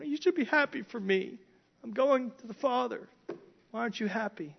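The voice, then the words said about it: Whiny voice. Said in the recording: “kind of a whiny voice”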